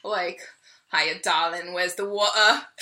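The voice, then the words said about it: Cockney accent. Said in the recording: “I either sound like I'm a East London a Cockney geezer.”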